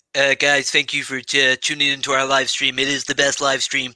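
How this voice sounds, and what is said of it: Put-on American accent. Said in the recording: “American accents ... got a belt in American accent”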